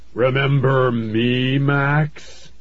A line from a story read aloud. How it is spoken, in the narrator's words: he shouted in a booming voice that made the trees rattle even harder